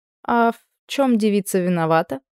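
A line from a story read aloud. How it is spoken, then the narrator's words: Lazy question. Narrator (Russian): спросила я лениво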